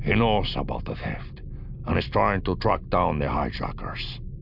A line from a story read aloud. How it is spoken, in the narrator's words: Lamiov said grimly